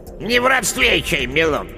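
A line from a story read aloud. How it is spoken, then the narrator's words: Gruff, unfriendly mutter. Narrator (Russian): неприветливо буркнула яга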